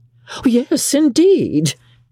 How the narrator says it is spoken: cried Mrs

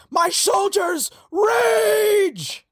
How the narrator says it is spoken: As she charges forward, shouts

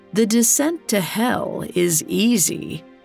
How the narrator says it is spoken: she croaked

